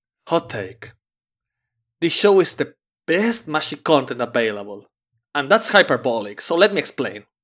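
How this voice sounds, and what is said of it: Dramatic reading imitating another person's voice. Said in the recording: “We usually have Damon give us a dramatic reading of those reviews ... I'm going to suck at the impersonation”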